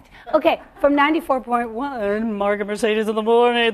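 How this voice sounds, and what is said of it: Exaggerated radio announcer voice. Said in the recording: “this is my radio voice.”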